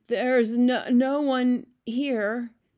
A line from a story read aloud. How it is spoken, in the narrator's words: he stammered